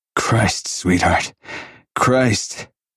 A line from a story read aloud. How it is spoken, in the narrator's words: he panted, wave after wave of relief sweeping him